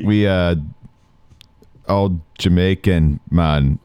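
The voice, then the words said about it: Thick put-on Jamaican accent. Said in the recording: “in the thickest Jamaican accent you can, like you've ever heard”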